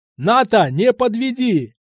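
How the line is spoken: Full-throated yell while running. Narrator (Russian): я орал во все горло уже на бегу

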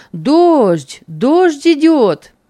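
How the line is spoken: Sudden shout. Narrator (Russian): вдруг крикнул кто-то

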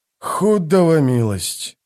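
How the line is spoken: Groan. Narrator (Russian): простонал Дукер

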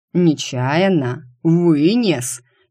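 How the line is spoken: Growled. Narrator (Russian): зарычал комендант

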